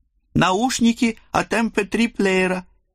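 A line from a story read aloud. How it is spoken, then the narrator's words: Joyful explanation. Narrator (Russian): радостно пояснил он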